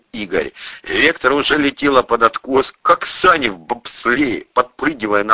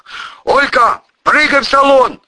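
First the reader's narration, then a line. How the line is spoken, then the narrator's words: Yelling. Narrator (Russian): заорал Пудик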